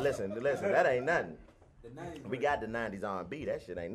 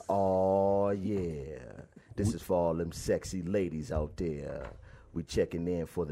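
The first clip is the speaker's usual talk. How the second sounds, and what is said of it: Deep smooth R&B-style voice. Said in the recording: “talking real deep voice ... You got to do it in a player way.”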